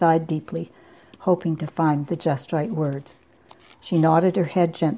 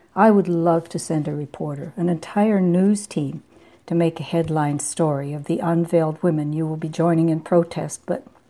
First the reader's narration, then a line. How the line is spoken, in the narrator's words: said, his voice warm